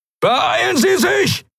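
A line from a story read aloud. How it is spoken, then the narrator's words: Shouting. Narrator (German): schrie Telios in den Kubus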